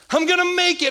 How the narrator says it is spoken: exclaimed

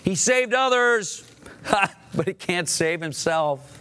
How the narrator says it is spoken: Religious leaders shouted to the onlookers

